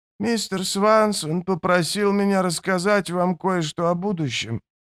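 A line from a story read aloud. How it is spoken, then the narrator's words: Began uncertainly. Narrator (Russian): неуверенно начал он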